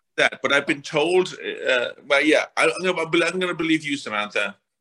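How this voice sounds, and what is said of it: Irish-American mixed accent. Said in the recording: “I have the Irish and English, not in the English, the Irish and the Irish-American or the Irish in America accent now ... it sounds Irish”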